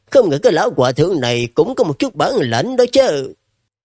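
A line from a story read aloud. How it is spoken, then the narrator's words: Loud laughing. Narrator (Vietnamese): cười lớn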